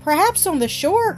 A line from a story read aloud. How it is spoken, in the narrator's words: cried Jack